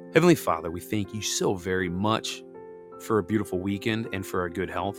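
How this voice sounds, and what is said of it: Weakened, not fully recovered voice. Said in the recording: “trying to still take it easy on my voice. As you can hear, my voice is still a little not quite all there.”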